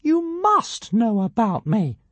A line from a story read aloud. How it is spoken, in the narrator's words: piped Ziggurastica